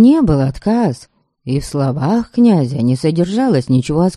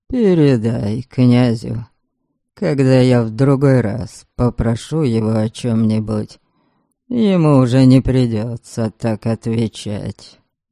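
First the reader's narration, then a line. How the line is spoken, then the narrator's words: Angry, through clenched teeth. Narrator (Russian): гневно процедил сквозь зубы Харальд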